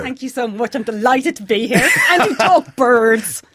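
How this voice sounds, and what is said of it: Pleasant non-local English accent. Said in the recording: “Not with that accent. It's lovely.”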